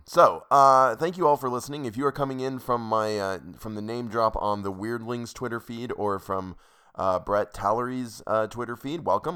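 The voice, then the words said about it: Sick, weird-sounding voice. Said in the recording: “My voice sounds super weird to me right now because I've been sick”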